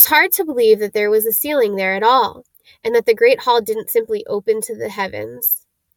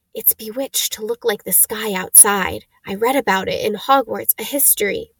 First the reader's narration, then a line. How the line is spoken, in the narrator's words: Hermione whisper